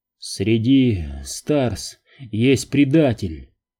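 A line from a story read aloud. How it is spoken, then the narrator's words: Whisper. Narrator (Russian): прошептал он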